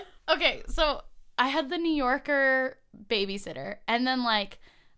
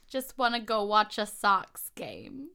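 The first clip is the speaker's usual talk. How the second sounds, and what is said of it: Weak put-on Boston accent. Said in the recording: “I'm really bad at a Boston accent.”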